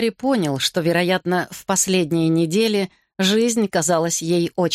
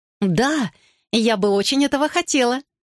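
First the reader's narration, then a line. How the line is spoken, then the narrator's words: Exclaimed. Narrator (Russian): воскликнула Кэтрин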